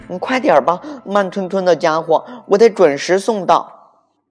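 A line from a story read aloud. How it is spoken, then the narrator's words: Loud, impatient shouting. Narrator (Chinese): 裴西大声嚷嚷道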